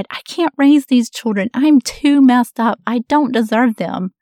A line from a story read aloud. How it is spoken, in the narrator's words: As a young, overwhelmed mom, I had cried out